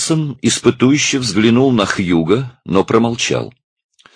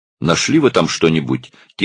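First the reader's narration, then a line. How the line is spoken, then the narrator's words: Quiet question. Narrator (Russian): тихо спросил он у своего помощника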